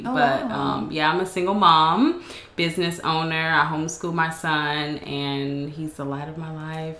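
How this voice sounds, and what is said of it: Southern US drawl. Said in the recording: “southern drawl. ... Okay, I thought I heard that.”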